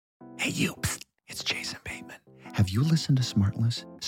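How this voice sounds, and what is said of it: Whispering. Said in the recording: “why are you whispering?”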